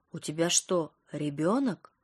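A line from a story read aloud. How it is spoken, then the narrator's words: Stunned breathless exclamation. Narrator (Russian): ошарашенно выдохнула Ника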